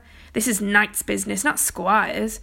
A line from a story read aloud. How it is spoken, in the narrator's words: Kay replied haughtily